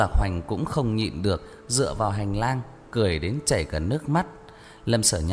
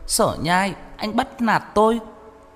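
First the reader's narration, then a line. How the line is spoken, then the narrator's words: Hurt, aggrieved cry. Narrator (Vietnamese): Tiêu Đồng thương tâm, dậm chân kêu lên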